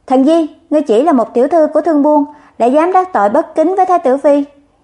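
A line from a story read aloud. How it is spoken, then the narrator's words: Shouted. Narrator (Vietnamese): Chu Dực quát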